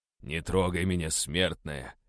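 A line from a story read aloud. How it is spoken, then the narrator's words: Strained, exhausted. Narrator (Russian): выдавил я из последних сил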